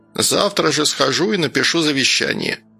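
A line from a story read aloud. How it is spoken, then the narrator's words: Grumbling old woman. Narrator (Russian): пробурчала баба Валя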